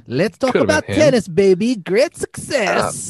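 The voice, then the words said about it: Decent Borat character voice. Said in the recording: “Borat calls in. It's pretty good. That was not a bad Borat.”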